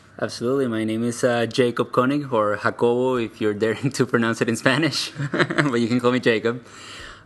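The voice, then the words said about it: Venezuelan accent. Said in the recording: “your accent is very obviously, you know, somewhere else ... I'm from Venezuela originally”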